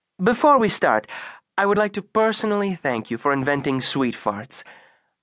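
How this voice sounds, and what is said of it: Faint Italian accent. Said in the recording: “with a faint Italian accent”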